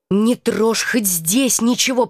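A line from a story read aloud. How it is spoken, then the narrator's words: Hiss. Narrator (Russian): прошипела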